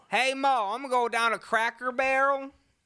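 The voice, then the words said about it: Put-on Southern drawl. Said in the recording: “I'm from the South. ... I like the Southern accent. ... A little Southern drawl.”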